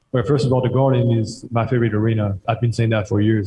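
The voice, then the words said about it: Accented English. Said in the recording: “Love the accent. Love it.”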